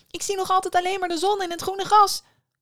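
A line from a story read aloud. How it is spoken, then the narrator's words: Calling out. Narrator (Dutch): riep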